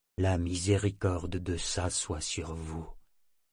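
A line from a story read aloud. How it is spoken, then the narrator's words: Said in low voice. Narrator (French): dit-il à mi-voix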